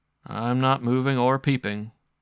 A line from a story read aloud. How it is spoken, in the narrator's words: Gascon assured them blandly